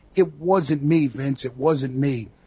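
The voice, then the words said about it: Thick New York Brooklyn accent. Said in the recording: “I have a thick New York Brooklyn accent that anyone can, impersonate.”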